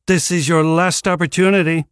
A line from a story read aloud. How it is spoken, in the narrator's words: Caius Nerva shouted